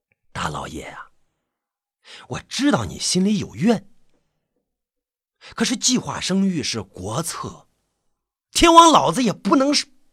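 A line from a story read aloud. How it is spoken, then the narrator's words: Soft, suppressed anger. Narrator (Chinese): 程光明动了怒，轻声的说着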